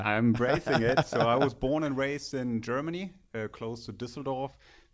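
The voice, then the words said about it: German accent. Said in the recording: “I can't hide my accent”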